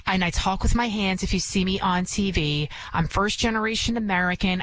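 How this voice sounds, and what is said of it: Bronx accent. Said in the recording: “I can be from the Bronx. Obviously, you can hear it in my accent, which I've been trying to get rid of”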